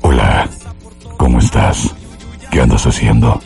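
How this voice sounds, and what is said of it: Smooth suave leading-man voice. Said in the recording (Spanish): “hacer la voz así de galán”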